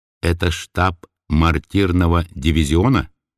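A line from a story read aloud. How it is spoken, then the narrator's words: Intimate, muffled question. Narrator (Russian): спросил интимно и глуховато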